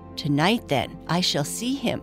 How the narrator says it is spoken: whispered the moonbeam

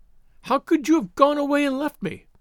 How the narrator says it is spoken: she cried, reproachfully

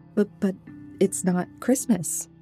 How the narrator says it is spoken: I stammered

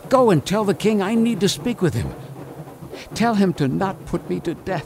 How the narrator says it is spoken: frantically and said

